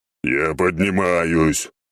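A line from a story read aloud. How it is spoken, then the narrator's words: Dragon's grumble. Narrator (Russian): проворчал дракон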